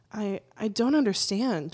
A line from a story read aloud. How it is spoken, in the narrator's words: stutters